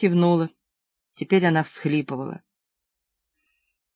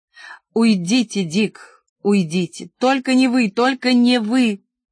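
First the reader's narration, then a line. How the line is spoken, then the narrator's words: Distraught muffled exclamation. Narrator (Russian): сломалась, закрыла лицо руками и воскликнула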